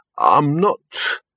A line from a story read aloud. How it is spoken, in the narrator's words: he croaked